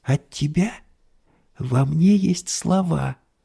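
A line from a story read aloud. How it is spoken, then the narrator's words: Whisper. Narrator (Russian): прошептала она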